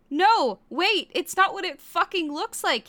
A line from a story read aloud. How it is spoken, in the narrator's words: he shouted